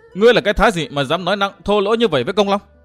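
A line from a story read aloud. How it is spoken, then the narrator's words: Loud shout. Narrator (Vietnamese): thiếu nữ ấy bật quát lớn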